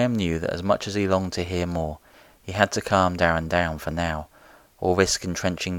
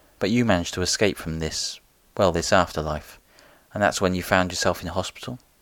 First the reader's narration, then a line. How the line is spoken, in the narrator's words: The man sighed